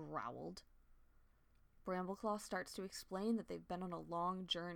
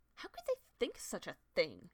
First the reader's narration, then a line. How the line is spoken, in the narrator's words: She spat